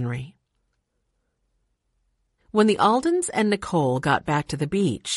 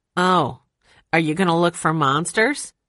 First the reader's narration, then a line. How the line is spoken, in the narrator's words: He laughed